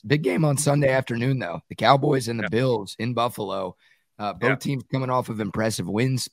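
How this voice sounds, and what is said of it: Hoarse, strained voice. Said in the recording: “I'm losing my voice here”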